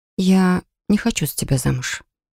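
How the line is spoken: Quiet but firm. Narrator (Russian): тихо, но твердо произнесла я

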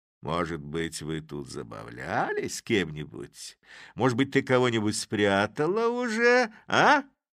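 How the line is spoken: Delighted triumphant laughing. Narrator (Russian): восхищенный таким своим замечанием Чуб засмеялся, внутренне торжествуя

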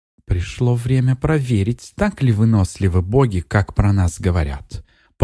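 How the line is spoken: Purring. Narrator (Russian): промурлыкала

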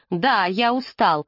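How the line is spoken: Snapping irritably. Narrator (Russian): огрызнулся Фрэнк

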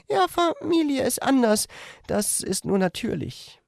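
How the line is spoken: Slightly sad. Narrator (German): sah sie etwas traurig aus, als sie meinte

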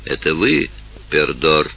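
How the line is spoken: Whispered question. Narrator (Russian): спросили шепотом

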